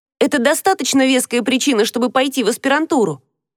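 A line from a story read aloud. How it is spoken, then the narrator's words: Shouting after, self-loathing longing. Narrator (Russian): крикнула ему вслед, ненавидя себя за то, что так страстно жаждет одобрения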